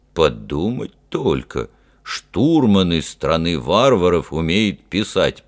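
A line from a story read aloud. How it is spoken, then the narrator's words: Grumbled. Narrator (Russian): проворчал Фример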